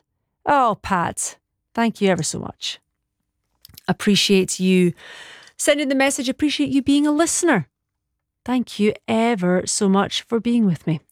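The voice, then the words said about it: Scottish accent. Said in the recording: “I just love your beautiful Scottish accent.”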